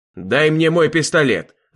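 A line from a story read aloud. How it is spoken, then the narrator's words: Yelling. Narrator (Russian): заорал я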